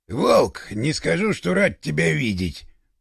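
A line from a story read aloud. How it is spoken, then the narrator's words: Grumbling. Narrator (Russian): пробурчал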